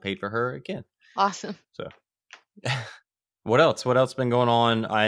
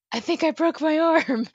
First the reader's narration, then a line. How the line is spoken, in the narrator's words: she screamed for her friend